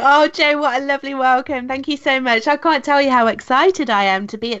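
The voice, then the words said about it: UK accent. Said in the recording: “I love your accent, by the way, from the UK.”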